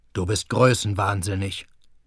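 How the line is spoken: Murmur. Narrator (German): murmelte Schulze

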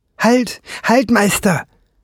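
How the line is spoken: Shouted. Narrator (German): rief der Homunculus

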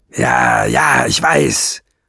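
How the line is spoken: Growled. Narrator (German): knurrte Nesselbrand

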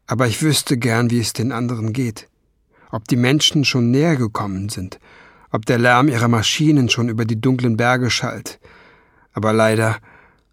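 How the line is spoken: Sigh. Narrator (German): er seufzte

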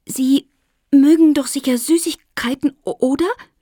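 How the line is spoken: Stammered. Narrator (German): stotterte Lotte

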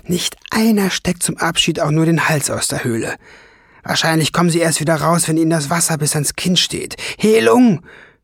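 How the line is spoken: Calling out. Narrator (German): rief sie dem Drachen zu

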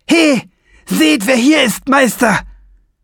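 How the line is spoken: Shrill shout through cupped hands. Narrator (German): Er legte seine Hände an den Mund und schrie mit schriller Stimme

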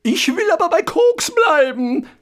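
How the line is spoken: Ghost's shriek. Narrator (German): kreischte das Gespenst

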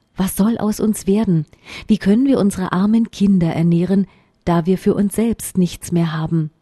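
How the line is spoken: Sighing, worried. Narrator (German): seufzte er und sprach zu seiner Frau

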